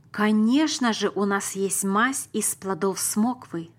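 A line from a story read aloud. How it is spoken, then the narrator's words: Plain. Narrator (Russian): сказала мама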